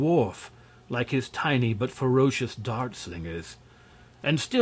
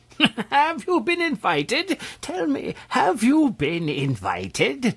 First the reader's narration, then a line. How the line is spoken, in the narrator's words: demanded the old man, chuckling to himself, as if much amused